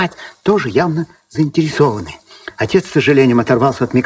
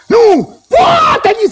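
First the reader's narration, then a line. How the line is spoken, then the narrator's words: Boy shouting. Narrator (Russian): закричал парнишка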